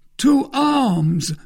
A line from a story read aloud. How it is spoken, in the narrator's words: cried Grimaud